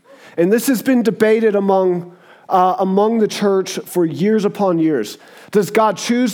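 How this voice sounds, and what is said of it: Southern American accent. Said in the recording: “where's that accent from? I'm like, it's called the South, baby... I'm just got a little redneck in me”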